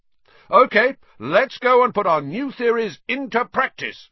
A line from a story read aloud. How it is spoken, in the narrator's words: Wood shouted